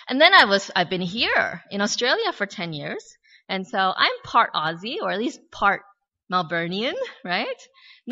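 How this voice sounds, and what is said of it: American accent. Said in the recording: “Obviously I have an American accent”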